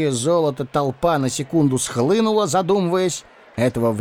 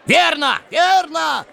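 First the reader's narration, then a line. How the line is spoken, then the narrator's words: Excited crowd yelling. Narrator (Russian): вопил возбужденный люд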